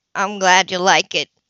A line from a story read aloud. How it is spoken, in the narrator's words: he said gruffly